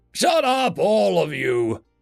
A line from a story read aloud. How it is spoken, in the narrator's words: Macklebek shouted